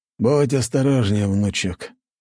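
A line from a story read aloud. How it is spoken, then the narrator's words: Sighing. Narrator (Russian): вздохнул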